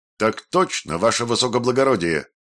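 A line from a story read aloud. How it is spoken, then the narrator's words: Loud barked reply. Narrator (Russian): гаркнули оперативники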